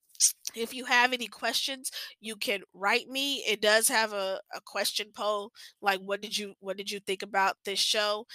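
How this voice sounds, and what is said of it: Slightly nasal, congested voice. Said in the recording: “I'm sorry if I sound a little nasally. I do. My allergies have been bothering me.”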